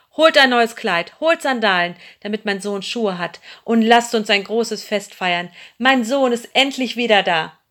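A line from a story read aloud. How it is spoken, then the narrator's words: Called out. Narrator (German): rief er seinem Diener zu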